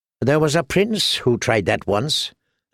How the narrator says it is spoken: said Tyrion dryly

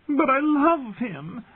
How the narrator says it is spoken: Sansa wailed, confused and frightened

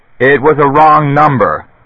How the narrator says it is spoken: shouted

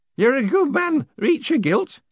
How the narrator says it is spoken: Horsefry hiccuped

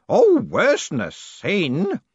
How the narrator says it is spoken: said Groat, almost sneering

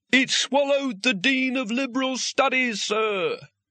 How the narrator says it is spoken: he shouted

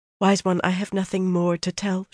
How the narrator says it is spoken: she murmured

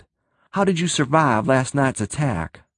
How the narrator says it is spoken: Tim gasped

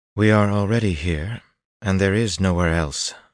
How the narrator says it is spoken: Berylane replied in a very practical tone

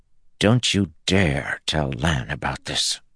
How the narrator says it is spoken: she growled

